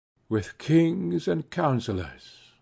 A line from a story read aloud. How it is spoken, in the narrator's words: murmured I